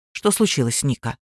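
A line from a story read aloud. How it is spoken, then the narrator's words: Plain. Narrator (Russian): спросил он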